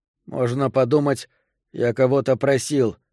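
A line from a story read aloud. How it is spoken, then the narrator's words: Grumbling. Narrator (Russian): продолжал бурчать я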